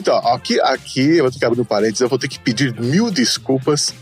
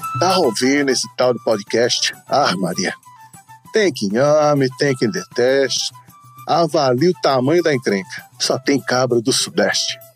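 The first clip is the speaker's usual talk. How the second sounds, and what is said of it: Fake Brazilian northeastern accent. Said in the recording (Portuguese): “ler esse continho com o meu sotaque fajuto ... a versão novela da Globo do sotaque ... meu sotaque macabrônico ... amigos do Nordeste”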